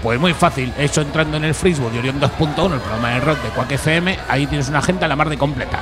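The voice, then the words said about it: Madrid Spanish accent. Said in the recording (Spanish): “tienes un acento de Madrid”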